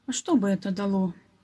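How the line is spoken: Sad boy. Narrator (Russian): грустно ответил мальчик

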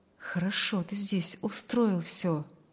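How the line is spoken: Low undertone. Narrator (Russian): проговорил он вполголоса

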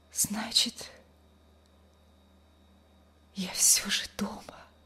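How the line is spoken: Weak whisper. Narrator (Russian): прошептала она слабым голосом

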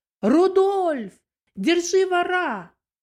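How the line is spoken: Loud shout. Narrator (Russian): громко крикнула

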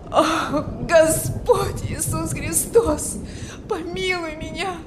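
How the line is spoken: Desperate moaning. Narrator (Russian): Стонал он в отчаянии

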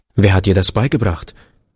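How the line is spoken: Man's sharp question. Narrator (German): fragte der Mann scharf

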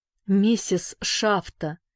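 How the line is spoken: Trembling call. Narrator (Russian): позвал он дрожащим голосом

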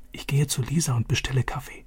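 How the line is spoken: Whispered. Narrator (German): flüsterte Vater zu

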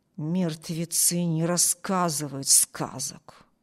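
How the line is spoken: Chilling mutter. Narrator (Russian): пробормотал Харпер таким тоном, что у Эми кровь застыла в жилах

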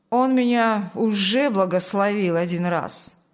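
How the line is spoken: Angry mutter. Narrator (Russian): сердито буркнул Шталь

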